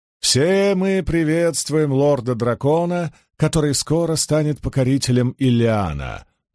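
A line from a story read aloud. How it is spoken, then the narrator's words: Chanting. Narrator (Russian): нараспев произнес Вейрамон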